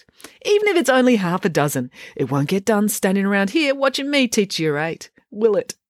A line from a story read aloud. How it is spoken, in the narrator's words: Mum laughed wholeheartedly at her own joke